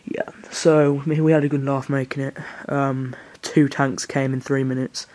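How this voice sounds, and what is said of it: Brummie (Birmingham) English accent. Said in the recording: “I'm so brummy, sorry. Real laugh, like, you know, I can't help my accent.”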